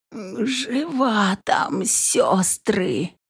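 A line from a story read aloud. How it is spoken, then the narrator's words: Witch's near-wheezing reply. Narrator (Russian): почти хрипя ответила ведьма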